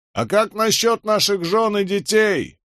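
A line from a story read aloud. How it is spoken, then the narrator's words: Soldier shouting out. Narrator (Russian): выкрикнул один из солдат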